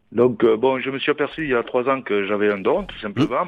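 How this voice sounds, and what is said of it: Sing-song southern French accent. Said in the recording (French): “Ça doit être dans le sud avec cet accent chantant. ... Ah oui, chantant. ... Il chante”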